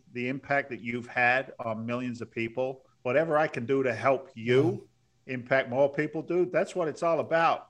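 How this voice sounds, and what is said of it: London and Boston accent mix. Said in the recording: “dude from London with the Boston accent, or a guy from Boston with the London accent.”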